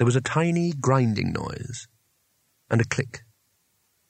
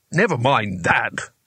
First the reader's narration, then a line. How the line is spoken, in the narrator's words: snapped Jigladwort